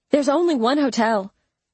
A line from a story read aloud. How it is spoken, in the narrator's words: Mama snapped